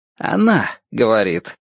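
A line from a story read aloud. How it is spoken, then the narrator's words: Hoarse, correcting. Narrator (Russian): поправляет он меня хрипловатым голосом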